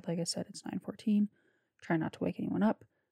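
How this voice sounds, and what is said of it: Whispering, speaking quietly. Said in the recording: “Sorry if this sounds like I'm whispering. I am trying to speak quiet.”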